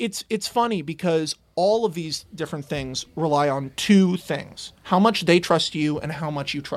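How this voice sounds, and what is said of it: Usual voice. Nothing is said of it.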